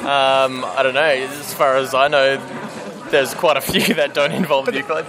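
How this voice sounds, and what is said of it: Australian accent. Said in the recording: “that sounds like an Australian accent”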